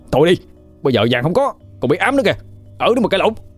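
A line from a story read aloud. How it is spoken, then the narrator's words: Shouting over argument. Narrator (Vietnamese): Quân thấy hai người cãi nhau thì cũng hét lên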